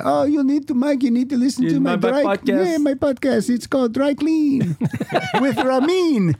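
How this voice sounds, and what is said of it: Character voice with vague foreign accent. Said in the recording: “What country is he from? ... I don't even know why I'm doing a voice.”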